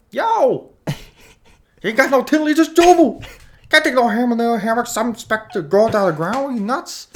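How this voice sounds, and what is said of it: Imitates another person's voice. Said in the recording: “That was Don Vito.”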